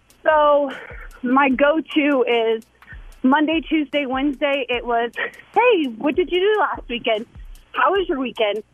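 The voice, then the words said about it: Slightly out of breath. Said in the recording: “That's why I'm out of breath a little bit.”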